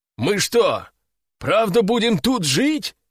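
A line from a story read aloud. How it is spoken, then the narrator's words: Surprised exclamation. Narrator (Russian): удивленно воскликнул Игорь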